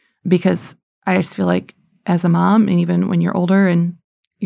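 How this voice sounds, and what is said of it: Usual voice. Nothing is said of it.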